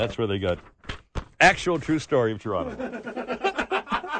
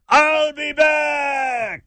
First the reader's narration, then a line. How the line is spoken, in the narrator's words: the Army paratroopers if they shouted